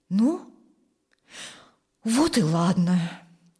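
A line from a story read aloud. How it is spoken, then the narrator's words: Relieved sigh. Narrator (Russian): Облегченно вздохнул Юрген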